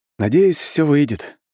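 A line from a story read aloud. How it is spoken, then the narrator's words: Sigh. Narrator (Russian): вздохнул я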